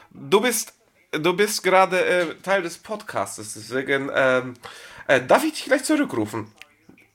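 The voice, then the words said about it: Put-on Russian accent. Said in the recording (German): “Du hast angefangen, mit polnischen Akzent zu sprechen... Das war russischer Akzent.”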